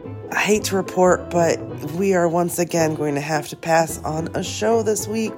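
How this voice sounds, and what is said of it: Sick, altered voice. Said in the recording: “coming at you from my COVID bed ... Your girl caught COVID ... rocking this super sexy voice.”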